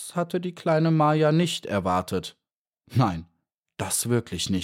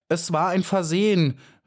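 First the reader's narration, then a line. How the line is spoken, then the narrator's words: Trembling hopeful cry. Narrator (German): rief sie und zitterte vor Glück und Hoffnung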